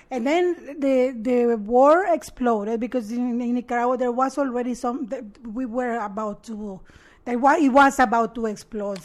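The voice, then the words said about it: Noticeable foreign accent. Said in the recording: “Obviously, you have the accent.”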